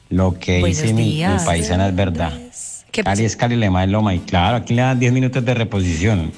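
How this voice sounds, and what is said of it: Colombian Cali Spanish accent. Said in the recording (Spanish): “acento tan lindo, mi amor ... cómo sonará el lindo de caleño”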